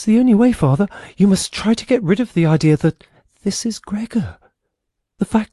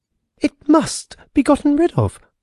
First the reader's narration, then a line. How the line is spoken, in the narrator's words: cried the sister